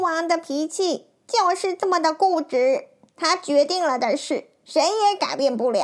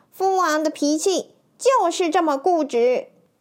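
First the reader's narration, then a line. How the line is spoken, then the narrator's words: Sighing. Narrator (Chinese): 殷若花也叹了口气说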